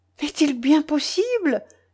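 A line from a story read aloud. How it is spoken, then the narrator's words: Delighted exclamation. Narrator (French): s'écria Madame de Rênal, ravie à son tour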